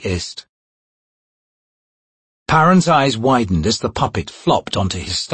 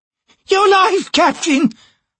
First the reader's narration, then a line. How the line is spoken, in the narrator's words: Hairlock cried